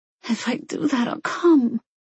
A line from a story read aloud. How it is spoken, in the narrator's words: she whimpered